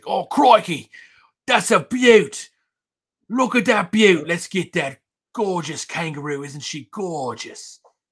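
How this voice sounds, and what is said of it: Australian accent impression. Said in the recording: “I could do a good Steve Irwin. That's Australian. ... That was a really good impression”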